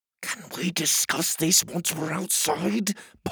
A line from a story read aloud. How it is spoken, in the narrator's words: Pockets whispered impatiently